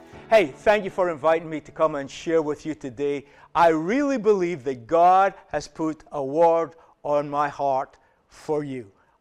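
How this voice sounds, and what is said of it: Northeast Scottish accent. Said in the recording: “the northeast of Scotland ... recognize the accent because I live close to where ... comes from”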